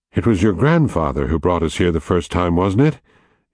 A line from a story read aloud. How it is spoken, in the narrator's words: Ian said breathlessly